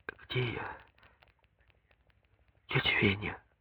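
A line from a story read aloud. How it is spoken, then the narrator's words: Quiet question. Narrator (Russian): спрашивает она тихо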